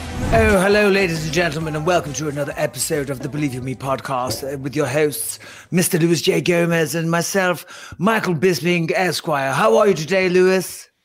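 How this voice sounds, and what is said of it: Posh British accent. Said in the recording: “do an impression of a British person ... That was a hoity-toity. You know, a posh person.”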